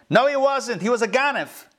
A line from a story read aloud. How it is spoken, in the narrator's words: shouts from the crowd